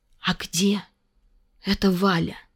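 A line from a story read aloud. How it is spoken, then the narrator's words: Quiet question. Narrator (Russian): спросил он тихо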